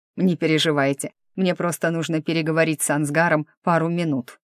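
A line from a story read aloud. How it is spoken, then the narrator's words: Chuckling emperor. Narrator (Russian): хохотнул император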